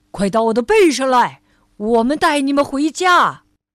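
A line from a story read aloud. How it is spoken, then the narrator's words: Large whale shouting. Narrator (Chinese): 最大的一头鲸喊道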